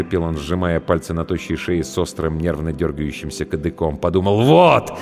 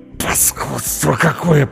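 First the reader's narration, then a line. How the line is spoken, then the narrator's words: Hissed through teeth. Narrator (Russian): прошипел он сквозь зубы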